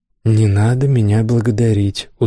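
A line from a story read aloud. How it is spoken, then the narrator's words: Tired, dismissive. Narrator (Russian): устало отмахнулся Кел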